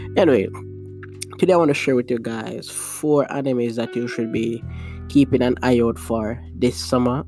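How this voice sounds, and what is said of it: Voice sounds congested from cold. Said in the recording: “I'm feeling a little sick, so you might hear my voice just sound a little different because I have the cold.”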